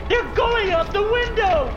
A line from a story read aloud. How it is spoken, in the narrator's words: A crazed woman yells from the other side of the door